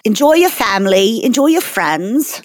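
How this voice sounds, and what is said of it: Put-on British accent. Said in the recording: “doing an accent for some reason... I just decided to do like a British thing for a second.”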